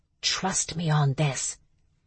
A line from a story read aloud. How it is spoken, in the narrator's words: whispered